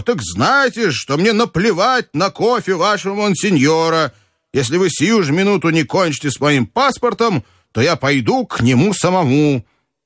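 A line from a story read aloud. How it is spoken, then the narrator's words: Shouting even louder. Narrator (Russian): закричал, но еще сильнее его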